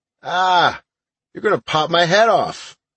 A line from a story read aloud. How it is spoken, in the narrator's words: I cried